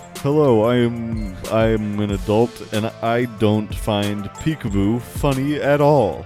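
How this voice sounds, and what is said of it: Put-on grown-up adult voice. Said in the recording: “do your best adult voice”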